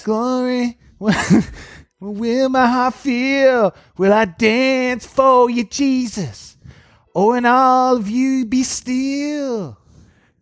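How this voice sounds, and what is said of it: Rough singing like a poor folk-singer imitation. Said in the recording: “You sound like a bad Bob Dylan.”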